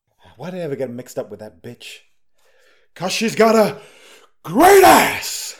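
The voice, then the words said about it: Al Pacino impression, half-hearted shout. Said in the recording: “why are you doing Al Pacino? And then you didn't shout properly. You've got to really go for it.”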